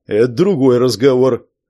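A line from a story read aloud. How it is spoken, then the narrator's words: Calm, while eating. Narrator (Russian): ответил Амфиба, спокойно доедая кашу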